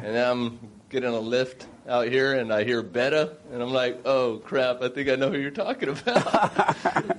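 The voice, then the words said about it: Texan accent. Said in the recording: “You sound like them. ... That same accent.”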